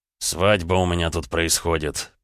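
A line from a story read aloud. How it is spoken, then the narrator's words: Through gritted teeth. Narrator (Russian): процедил Роман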